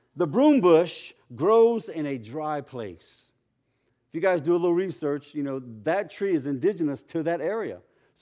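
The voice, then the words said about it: Cajun accent. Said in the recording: “I already have a hard time getting my Cajun accent out of here”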